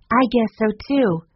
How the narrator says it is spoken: cried Jessie

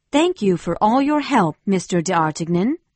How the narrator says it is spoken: she said

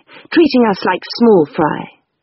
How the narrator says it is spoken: said indignantly

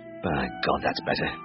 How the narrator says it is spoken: muttered

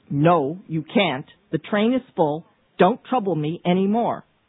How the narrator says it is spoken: he said sharply

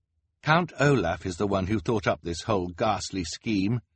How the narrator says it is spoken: Klaus said

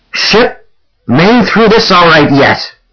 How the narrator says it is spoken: the captain shouted

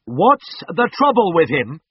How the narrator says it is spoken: I shouted

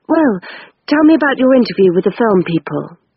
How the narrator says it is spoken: went on quickly

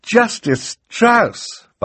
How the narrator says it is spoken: Violet cried

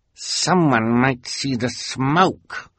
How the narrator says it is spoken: Esme snarled

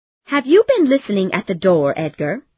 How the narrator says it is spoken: Heathcliff laughed

